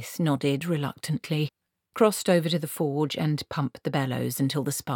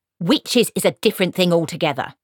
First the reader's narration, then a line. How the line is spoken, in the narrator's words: snapped Granny Weatherwax